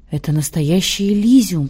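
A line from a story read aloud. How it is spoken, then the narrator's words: Whisper. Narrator (Russian): прошептала Пелагея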